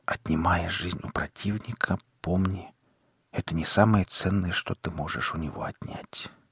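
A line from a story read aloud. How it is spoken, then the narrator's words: Man whispering. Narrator (Russian): прошептал мужчина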